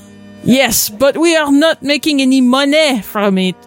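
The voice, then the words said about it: Exaggerated put-on French accent. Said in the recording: “Do a kind of racist French accent. ... It's not a very convincing French accent. ... I thought she was doing a pretty good job.”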